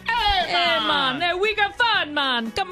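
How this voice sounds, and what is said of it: Put-on Caribbean accent. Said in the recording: “do your Caribbean accent to get us in the mood ... the only time she can't do the Caribbean accent is when the script calls for it”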